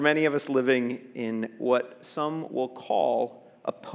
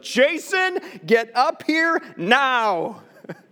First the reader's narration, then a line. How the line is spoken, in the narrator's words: my mom's face change from concern to anger as she yelled